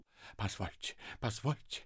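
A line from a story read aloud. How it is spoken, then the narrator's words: Flustered babbling. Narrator (Russian): лепетал Ипполит Матвеевич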